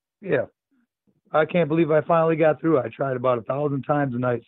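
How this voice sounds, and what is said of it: Hoarse, worn-out voice. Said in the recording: “my voice is pretty well shot from doing the Joker impersonation.”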